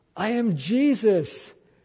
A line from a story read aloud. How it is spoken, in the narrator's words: Paul cried